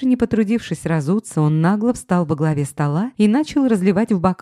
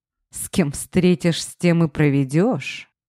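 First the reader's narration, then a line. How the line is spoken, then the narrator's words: Irritated growl. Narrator (Russian): раздраженно прорычал босс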